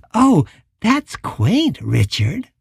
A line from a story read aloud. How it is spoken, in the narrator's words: the childish voice giggled